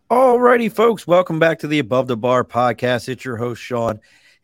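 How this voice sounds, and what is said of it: Hoarse voice from a cold. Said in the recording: “my voice sounds horrible, I'm just getting over a cold ... I can hear it in my voice”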